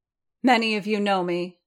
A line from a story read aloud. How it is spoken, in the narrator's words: she said, her voice still ringing out over the ice